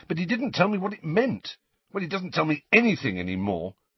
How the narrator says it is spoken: said Harry impatiently

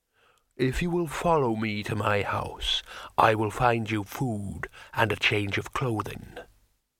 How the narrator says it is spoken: said the troll solemnly

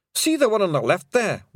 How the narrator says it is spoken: whimpered a Pictsy

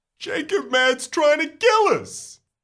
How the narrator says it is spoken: Sam wails

